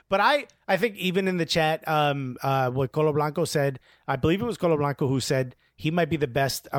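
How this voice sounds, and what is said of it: Usual voice. Nothing is said of it.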